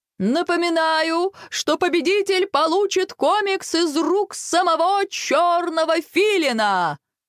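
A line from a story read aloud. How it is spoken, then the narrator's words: Host shouting. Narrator (Russian): прокричал ведущий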